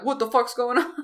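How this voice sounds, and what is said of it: Uncanny imitation of a male character. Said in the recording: “That was an uncanny impression. ... That sounded just like him, actually.”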